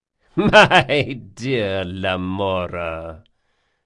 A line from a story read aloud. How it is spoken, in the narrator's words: laughed Stragos, with a soft, dry sound like an echo inside a coffin